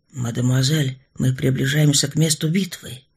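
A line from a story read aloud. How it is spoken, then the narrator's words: Quiet explanation. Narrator (Russian): Тихо, чтобы не разбудить Генриетту, объяснил поверенный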